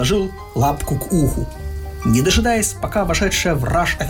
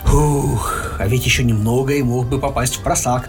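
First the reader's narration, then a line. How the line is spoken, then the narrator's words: Sighing. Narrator (Russian): вздохнул Винни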